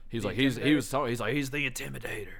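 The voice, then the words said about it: Poor imitation of another person's voice. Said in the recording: “That's my Mike Tyson voice. ... That's terrible. ... it wasn't good at all.”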